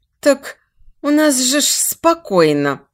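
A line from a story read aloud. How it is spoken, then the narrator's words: Extremely plaintive. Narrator (Russian): Прозвучало это да нельзя жалобно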